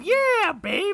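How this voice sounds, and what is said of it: Imitates another person's voice. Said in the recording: “everyone's Steven Tyler impersonation”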